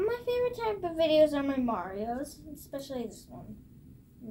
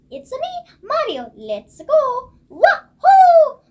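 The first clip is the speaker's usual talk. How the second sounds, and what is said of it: Cartoonish Mario character voice. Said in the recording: “do the Mario voice... Can you do it?... Yeah, of course.”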